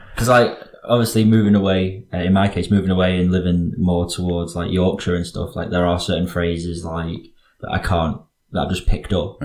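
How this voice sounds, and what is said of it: Mild Northwest English accent. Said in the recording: “some people find it difficult to place my accent. ... They know it's a Northwestern one ... it's not very specific. Like, it's not like definable.”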